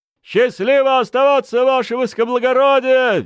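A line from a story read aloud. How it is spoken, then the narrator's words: Cheerful unison barking. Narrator (Russian): весело и дружно рявкнул фронт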